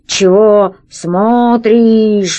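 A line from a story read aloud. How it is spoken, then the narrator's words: Slow, laboured monster voice. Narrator (Russian): медленно проговорило чудовище, с трудом ворочая красным языком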